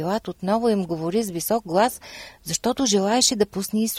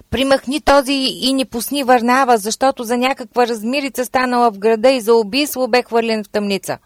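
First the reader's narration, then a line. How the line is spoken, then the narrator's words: Crowd shouting in unison. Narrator (Bulgarian): всички изкрещяха в един глас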